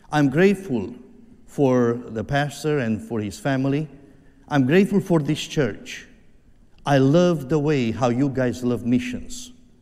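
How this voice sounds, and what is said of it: Heavy foreign accent. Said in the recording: “I speak like Elmer Fudd... my heavy accent”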